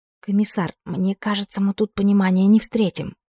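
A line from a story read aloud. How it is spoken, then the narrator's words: Whisper. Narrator (Russian): прошептала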